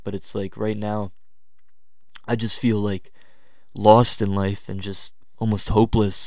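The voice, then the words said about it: Tired, low-energy voice. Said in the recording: “I didn't even have energy to record this. I mean, you guys can hear it in my voice. I'm exhausted.”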